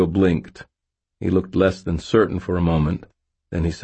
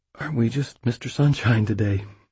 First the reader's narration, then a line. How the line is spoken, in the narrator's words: It took me two tries, but I managed to whisper